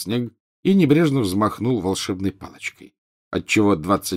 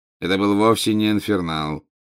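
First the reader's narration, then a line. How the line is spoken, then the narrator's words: Bored interrupting voice. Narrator (Russian): скучающим голосом прервал его Снег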